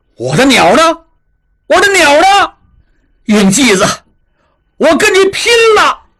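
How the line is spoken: Furious shouting. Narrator (Chinese): 应震气急败坏，大喊大叫

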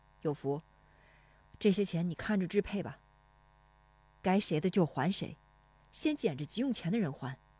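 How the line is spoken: Sighing. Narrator (Chinese): 石丽华叹口气

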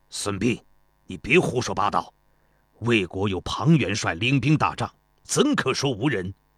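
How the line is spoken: Stern. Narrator (Chinese): 公孙越厉声说道

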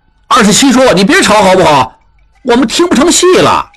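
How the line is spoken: Crowd clamoring. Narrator (Chinese): 众人嚷嚷着

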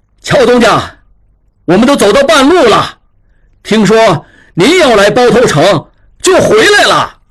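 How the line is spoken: Loud speech. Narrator (Chinese): 一掌柜模样的人 大声说

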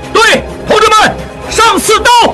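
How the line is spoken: Officer shouting. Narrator (Chinese): 一名军官高喊道

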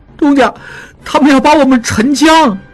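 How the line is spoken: Tearful voice. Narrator (Chinese): 小栓也在另一条麻袋里吐掉了嘴里的东西，带着哭腔说

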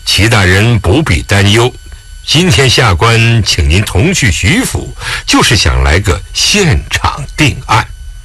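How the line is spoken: Smiling. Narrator (Chinese): 狄仁杰微笑

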